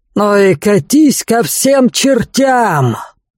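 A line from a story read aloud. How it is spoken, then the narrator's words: Angel barking from sky. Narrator (Russian): рявкнул с неба ангел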